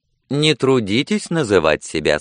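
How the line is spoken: Cheerful. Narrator (Russian): сказала она весело

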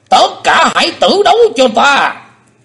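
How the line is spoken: Stunned then roaring. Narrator (Vietnamese): Âm ma giáo chủ sững đi một chập rồi gầm to

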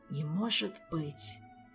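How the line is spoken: Whisper. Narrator (Russian): прошептал Гаэтана

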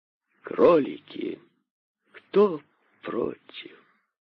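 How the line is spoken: Gentler asking voice. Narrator (Russian): Уже более ласковым голосом спросил король

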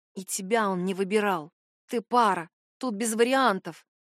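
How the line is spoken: Nasty inner whisper. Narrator (Russian): шепнул противный голосок внутри, похожий на Найлин

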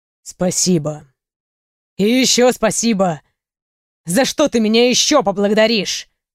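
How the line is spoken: Growling. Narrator (Russian): прорычал Рей

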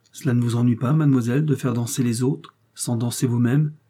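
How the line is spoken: Plain. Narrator (French): lui demanda-t-elle

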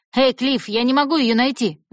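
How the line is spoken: Yelling from inside. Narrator (Russian): заорал изнутри Джефф

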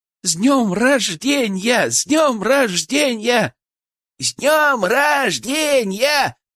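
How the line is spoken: Loud shout. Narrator (Russian): Ольга громко закричала

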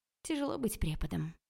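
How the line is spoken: Sigh. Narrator (Russian): вздохнула я

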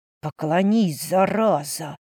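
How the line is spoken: Barely audible hiss. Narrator (Russian): На грани слышимости прошипел Эркьер

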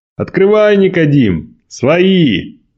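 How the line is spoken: Booming shout. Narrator (Russian): зычным голосом крикнул Николай

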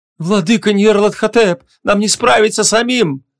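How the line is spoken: Pleading. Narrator (Russian): взмолился Емиш Солнечный

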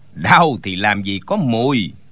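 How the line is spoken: Scoffing, sneering. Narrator (Vietnamese): Tên giúp việc trong tiệm tạp hóa bỗng cười khẩy một tiếng rồi nói

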